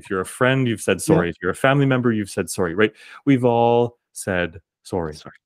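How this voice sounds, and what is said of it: Canadian accent. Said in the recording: “my American friends listening to this are laughing at the way I say sorry ... my Canadian accent.”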